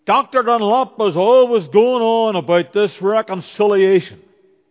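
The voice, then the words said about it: Broad Belfast accent. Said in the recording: “he said in his broad Belfast accent”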